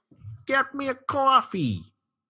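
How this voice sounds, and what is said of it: Put-on New York accent. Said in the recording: “about as far as I can go with a New York accent.”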